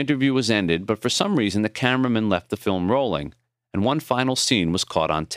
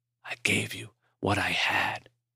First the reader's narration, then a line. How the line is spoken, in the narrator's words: he whispered